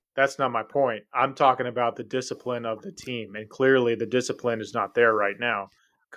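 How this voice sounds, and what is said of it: Yelling, raised loud voice. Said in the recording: “you're yelling”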